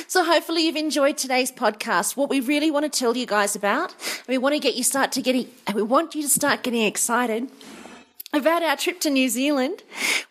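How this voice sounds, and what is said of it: Slightly hoarse voice. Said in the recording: “my voice is a little bit hoarse. I've just had myself a coughing fit.”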